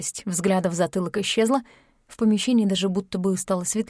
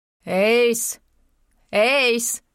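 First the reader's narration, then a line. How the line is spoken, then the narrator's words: Loud call. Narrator (Russian): громко позвал доктор Ки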